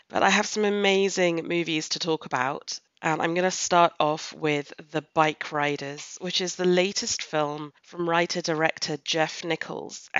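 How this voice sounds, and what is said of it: Sick voice with a cold. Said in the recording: “as you may be able to hear from my voice, hashtag LFFLurgy has struck ... everyone has an autumn cold lurgy”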